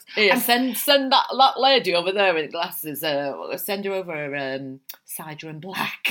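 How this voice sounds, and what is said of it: Put-on northern English accent. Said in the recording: “Why have you done a northern accent?”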